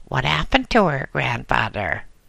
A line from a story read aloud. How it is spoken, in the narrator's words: she asked in a shrill voice